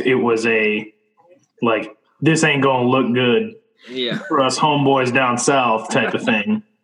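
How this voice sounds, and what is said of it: Put-on Texas accent. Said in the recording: “Texas accent ain't good ... no, it wasn't bad.”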